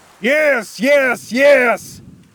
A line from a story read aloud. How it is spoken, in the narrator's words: Cornelius shouted